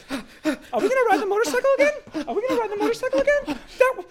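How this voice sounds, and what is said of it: High-pitched Mickey Mouse child voice. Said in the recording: “every four-year-old has a Mickey Mouse voice ... That's his impression for all children.”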